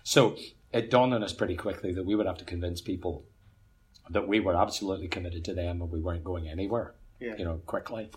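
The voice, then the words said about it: Northern Irish accent. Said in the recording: “in an Irish context, as soon as I open my mouth, people know exactly where I'm from on the island ... Your accent locates you very specifically ... an Ulsterman”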